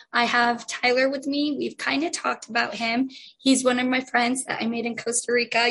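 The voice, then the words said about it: Hoarse, mostly lost voice. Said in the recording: “As you can tell, I have lost my voice”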